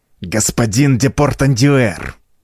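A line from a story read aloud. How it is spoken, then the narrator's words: Venomous hiss. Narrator (Russian): прошипел он, словно потревоженная гадюка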